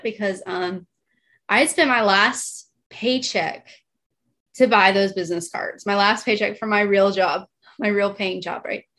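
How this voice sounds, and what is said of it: Emotional, choked-up voice. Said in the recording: “sorry, I'm a little emotional about it”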